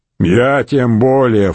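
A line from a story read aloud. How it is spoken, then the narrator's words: Snort through beer foam. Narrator (Russian): фыркнул пивной пеной мачий Корсбок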